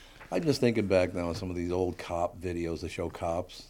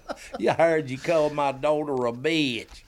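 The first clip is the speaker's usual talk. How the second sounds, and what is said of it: Louisiana Southern accent. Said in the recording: “it was in Louisiana ... Just the accent alone is going to make this a really good episode.”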